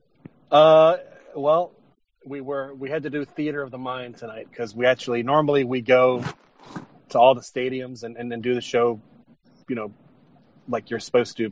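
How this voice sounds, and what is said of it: Voice sounds a little off. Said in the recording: “my voice is probably a little off. Just did a 4-hour show.”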